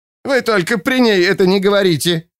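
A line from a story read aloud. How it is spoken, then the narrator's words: Shrill shriek. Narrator (Russian): взвизгнула она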